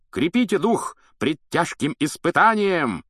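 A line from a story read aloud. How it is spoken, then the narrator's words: High-pitched shouting knight. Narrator (Russian): крикнул на высокой ноте рыцарь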